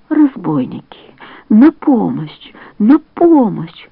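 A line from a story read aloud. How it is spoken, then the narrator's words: Hoarse cry. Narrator (Russian): раздался хриплый голос паука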